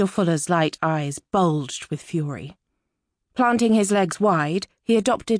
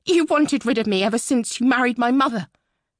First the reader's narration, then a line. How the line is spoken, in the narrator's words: Muriel spat